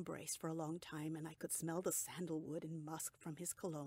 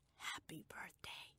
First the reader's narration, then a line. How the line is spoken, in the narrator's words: whispered